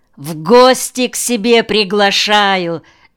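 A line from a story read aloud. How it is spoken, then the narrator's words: Cheerful shouting over phone. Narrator (Russian): весело орала трубка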